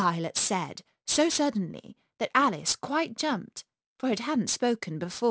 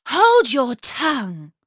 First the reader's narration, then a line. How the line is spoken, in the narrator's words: cried the tiger lily